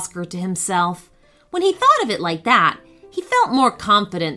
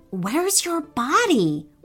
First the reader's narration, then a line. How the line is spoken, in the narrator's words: whispered Oscar